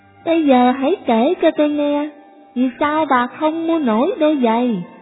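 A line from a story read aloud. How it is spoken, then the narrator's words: Loud shout. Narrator (Vietnamese): Bác tài hét lớn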